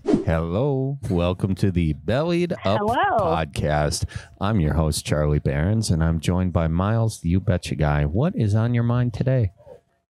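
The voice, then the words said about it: Put-on NPR radio host voice. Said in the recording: “I was trying my NPR voice. It didn't work very good. ... She's like creepy.”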